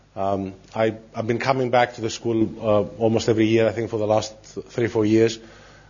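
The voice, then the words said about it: Sick, congested-sounding voice. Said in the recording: “I'm not feeling very well. I have a cold.”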